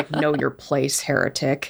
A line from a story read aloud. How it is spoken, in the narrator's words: Eli kind of m- mutters